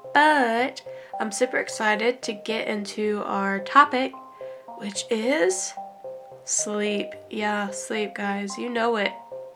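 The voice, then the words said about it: Congested, stuffy-nosed voice. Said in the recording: “I am getting over a little cold, so if you can hear it in my voice ... the stuffy nose sound”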